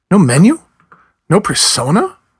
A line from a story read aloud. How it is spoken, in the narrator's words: he spoke quickly and angrily